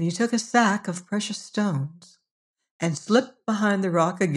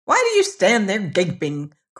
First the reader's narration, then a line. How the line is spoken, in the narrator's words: cried the dwarf, his ash-colored face turning vermilion with anger